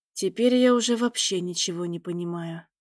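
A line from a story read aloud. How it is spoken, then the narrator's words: Mutter. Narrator (Russian): пробормотал Терри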